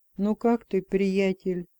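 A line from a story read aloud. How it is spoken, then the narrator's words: Soft question. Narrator (Russian): мягко спросил он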